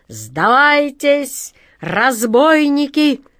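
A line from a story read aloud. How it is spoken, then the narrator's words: Booming. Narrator (Russian): Прогремел капитан Тинтиныч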